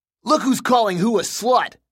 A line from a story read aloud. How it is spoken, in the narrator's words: shouted one of the jocks